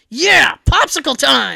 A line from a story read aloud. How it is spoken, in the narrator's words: I yelled